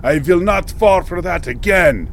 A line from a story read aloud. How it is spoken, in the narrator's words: roared